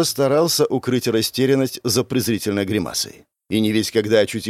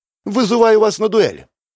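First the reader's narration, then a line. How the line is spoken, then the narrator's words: Shouting out. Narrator (Russian): выкрикнул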